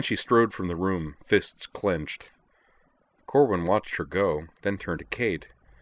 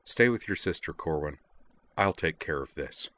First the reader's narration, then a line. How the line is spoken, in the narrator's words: said to Corwin in a flat, commanding voice